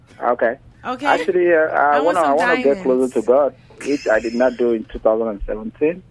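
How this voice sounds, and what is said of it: African-accented English. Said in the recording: “mind my accent. You know, I'm from Africa”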